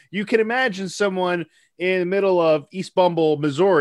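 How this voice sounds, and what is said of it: Usual voice. Nothing is said of it.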